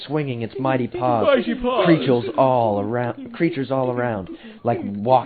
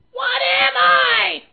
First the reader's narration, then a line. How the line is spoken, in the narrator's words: I shouted into the microphone